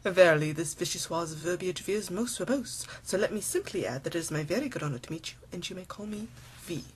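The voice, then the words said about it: Attempted posh English accent. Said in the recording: “I don't know if I met the perfect English accent part of your challenge”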